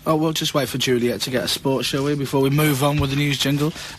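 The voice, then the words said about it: Hoarse voice. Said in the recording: “my voice is a little bit hoarse ... Might be a bit hoarse this morning after last night.”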